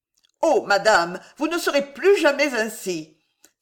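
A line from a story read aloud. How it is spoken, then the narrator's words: Astonished woman exclaiming. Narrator (French): s'écria Prudence Servien, stupéfaite de la sublime beauté de sa maîtresse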